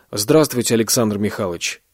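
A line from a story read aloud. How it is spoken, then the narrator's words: Dry, curt. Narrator (Russian): сухо сказал Вадим Родионович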